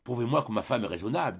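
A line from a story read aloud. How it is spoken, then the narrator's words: Plain. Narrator (French): dit Frédéric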